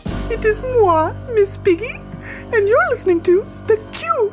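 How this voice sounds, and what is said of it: Miss Piggy character voice. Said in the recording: “as Miss Piggy ... I couldn't even tell. I thought that was the real Miss Piggy.”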